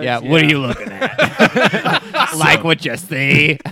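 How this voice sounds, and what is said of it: Raspy smoker-like seductive voice. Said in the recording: “Why are you like a 3-pack-a-day smoker in this scenario? ... You don't have to have a raspy voice. ... It's my seduction voice.”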